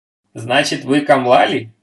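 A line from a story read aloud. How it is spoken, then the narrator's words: Laughing question. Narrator (Russian): смеясь спросил Майгин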